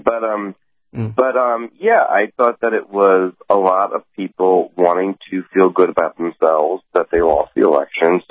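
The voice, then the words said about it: Voice congested from a cold. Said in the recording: “I have a little bit of a cold”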